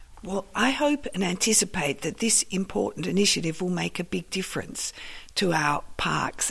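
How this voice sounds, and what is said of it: Husky, partly lost voice. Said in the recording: “my voice is a bit husky today. I've been going through just the last few days losing my voice ... it still hasn't recovered properly”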